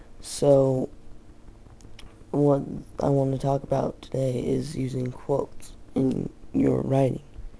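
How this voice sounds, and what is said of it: Groggy, just-woke-up voice. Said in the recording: “my voice sounds kind of groggy ... It's early in the morning. I just woke up”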